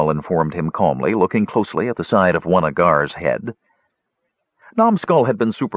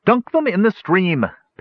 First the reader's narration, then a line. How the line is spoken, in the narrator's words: Parian cried from behind Flint